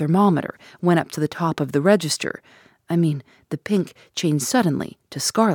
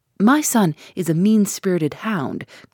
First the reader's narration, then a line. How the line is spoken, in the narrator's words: cried this furious old worldling